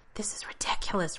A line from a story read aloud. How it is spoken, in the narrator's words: Rodney says in a whisper